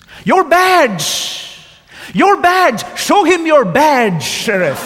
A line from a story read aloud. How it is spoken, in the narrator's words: The farmer yelled at the top of his lungs